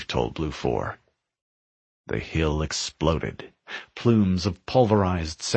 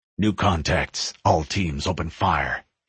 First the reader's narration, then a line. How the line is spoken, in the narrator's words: he barked